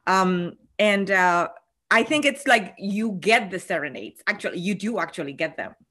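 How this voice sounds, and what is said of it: Latina accent. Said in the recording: “I am a Latina, in case you have not listened to my accent.”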